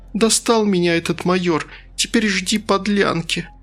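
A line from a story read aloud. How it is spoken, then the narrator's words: Girl sobbing in short bursts. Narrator (Russian): Коротко всхлипывая, девушка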